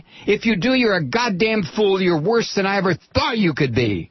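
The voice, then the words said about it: Yelling angrily. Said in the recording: “I'm yelling again.”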